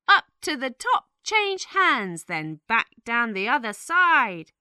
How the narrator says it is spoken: shouted

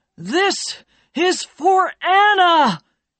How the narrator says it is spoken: shouted

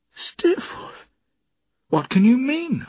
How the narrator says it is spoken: I cried

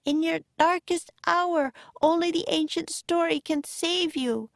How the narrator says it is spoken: cried Annie

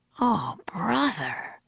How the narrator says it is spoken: Jack sighed

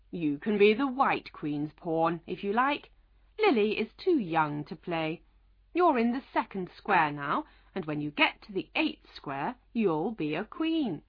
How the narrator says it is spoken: the Red Queen smiled kindly and said

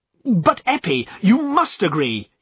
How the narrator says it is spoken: cried

